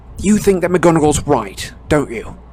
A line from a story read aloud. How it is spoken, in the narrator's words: said Harry angrily